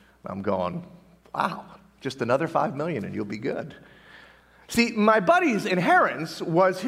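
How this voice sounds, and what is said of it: Usual voice. Nothing is said of it.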